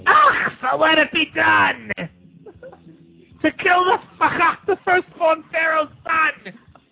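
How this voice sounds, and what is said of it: Mr. Vitelli impression. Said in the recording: “a killer Mr. Vitelli impersonation”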